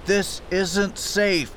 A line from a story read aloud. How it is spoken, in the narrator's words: I yelled over the roar of the weather and surf